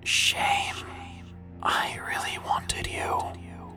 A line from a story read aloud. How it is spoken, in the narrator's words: it whispered